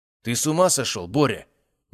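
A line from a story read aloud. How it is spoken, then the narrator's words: Sudden sharp shout. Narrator (Russian): неожиданно резко крикнул на мага Лихтенбургский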